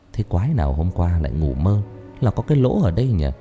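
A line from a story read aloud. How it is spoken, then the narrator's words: Amused muttering. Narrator (Vietnamese): Thành tủm tỉm cười rồi lẩm bẩm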